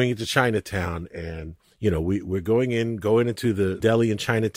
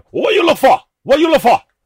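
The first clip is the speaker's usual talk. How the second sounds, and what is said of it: Mock Chinese accent. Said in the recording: “we were doing a Chinese accent”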